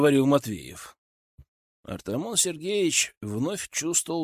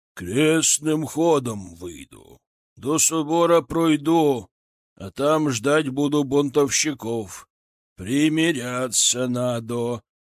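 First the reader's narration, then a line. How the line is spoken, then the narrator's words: Patriarch's booming drone. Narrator (Russian): прогудел патриарх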